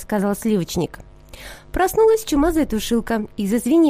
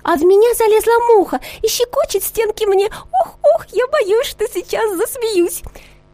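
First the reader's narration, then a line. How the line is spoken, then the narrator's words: Shouting. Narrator (Russian): Сахарница закричала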